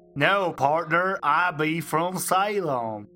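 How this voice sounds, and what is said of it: Poor put-on American cowboy accent. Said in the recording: “getting American accent wrong ... this cowboy”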